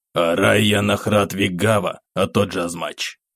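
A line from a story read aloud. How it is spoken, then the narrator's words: Hoarse lizard voice. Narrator (Russian): Хриплым голосом произнес ящер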